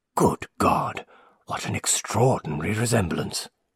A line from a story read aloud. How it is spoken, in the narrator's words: muttered an old resident of the town